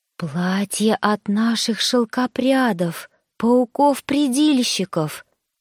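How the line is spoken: Reverent whisper. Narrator (Russian): благоговейно прошептала служанка

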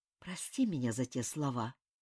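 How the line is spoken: Whispered in ear. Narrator (Russian): прошептал Ким на ухо

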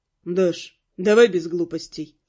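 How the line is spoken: Even voice. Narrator (Russian): ровным голосом произнес он

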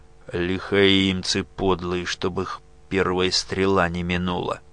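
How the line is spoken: Grim, through teeth. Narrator (Russian): Моряк этот мрачно процедил

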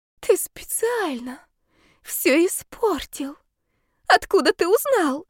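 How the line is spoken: High-pitched cry. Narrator (Russian): выкрикнула она тонким голосом

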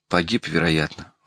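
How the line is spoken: Sighing. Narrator (Russian): вздохнул Никитин

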